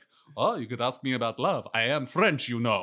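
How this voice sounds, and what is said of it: Deliberately bad fake French accent. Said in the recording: “he's doing a terrible French accent ... the French accent is so bad that everyone's like, that's a fake French accent”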